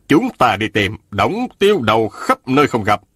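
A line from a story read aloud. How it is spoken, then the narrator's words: Cold. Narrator (Vietnamese): Quy Tân Thụ lạnh lùng nói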